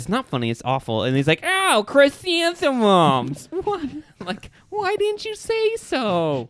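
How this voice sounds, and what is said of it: Weird imitated character voice. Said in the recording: “It was a weird voice. ... Your impressions are getting better and better each episode.”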